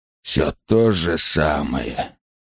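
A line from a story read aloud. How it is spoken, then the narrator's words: Sighing. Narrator (Russian): вздохнул Лурса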